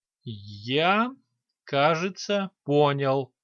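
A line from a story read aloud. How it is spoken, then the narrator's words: Slow. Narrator (Russian): медленно произнес граф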